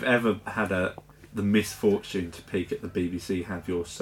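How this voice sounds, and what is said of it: Usual voice. Nothing is said of it.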